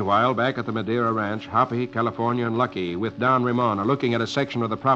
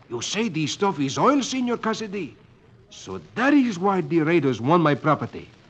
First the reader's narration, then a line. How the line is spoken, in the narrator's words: Don Ramon exclaims